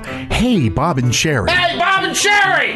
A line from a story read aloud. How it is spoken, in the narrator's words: yell